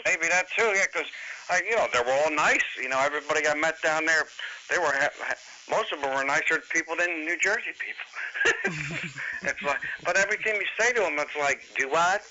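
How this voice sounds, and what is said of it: New Jersey accent. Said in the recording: “Nobody understands the New Jersey accent ... You got an accent.”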